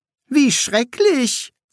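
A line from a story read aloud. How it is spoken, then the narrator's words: Cheerful. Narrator (German): sagte Shelter fröhlich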